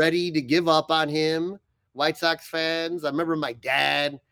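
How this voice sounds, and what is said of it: Usual voice. Nothing is said of it.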